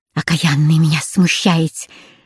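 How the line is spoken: Whispered. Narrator (Russian): прошептала

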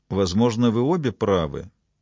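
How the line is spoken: Quiet interjection. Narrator (Russian): тихо вмешался Робинсон

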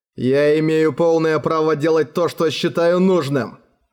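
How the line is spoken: Growled. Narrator (Russian): прорычал Роран

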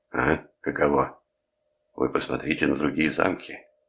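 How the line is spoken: Angry cursing. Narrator (Russian): Ракис злобно выругался

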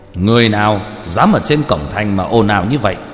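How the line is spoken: Loud officer's shout. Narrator (Vietnamese): một tên linh quan, từ phía xa đã thấy liền lớn tiếng quát

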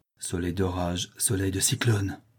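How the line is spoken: Young man's breathy murmur. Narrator (French): murmure le jeune homme d'une voix basse comme un souffle

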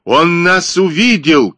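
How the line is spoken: Shouting. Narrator (Russian): крикнул Китсон

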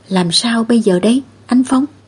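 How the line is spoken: Quiet, fearful, worried question. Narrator (Vietnamese): một số dân làng cảm thấy sợ hãi trong lòng, trên mặt tràn ngập u sầu, nhỏ giọng lo lắng hỏi

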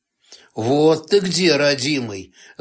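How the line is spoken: Gloating snort. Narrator (Russian): злорадно хмыкнул Сташевич

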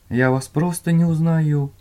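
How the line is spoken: Timid babbling. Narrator (Russian): пролепетал Дженни

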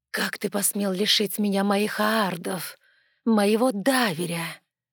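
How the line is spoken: Queen's haughty hiss. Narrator (Russian): надменно прошипела королева

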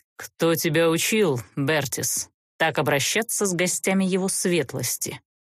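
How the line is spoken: Icy, cold inquiry. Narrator (Russian): Ледяным тоном осведомился змей

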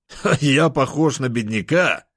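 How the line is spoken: Laughing. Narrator (Russian): Рассмеялся я

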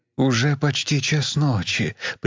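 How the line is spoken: Conciliatory. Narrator (Russian): примирительным тоном сказал Мартин

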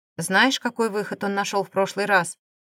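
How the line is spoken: Icy cold tone. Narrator (Russian): ледяным тоном проговорил Дамир

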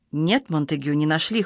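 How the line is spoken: Cold answer. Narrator (Russian): холодно ответил он

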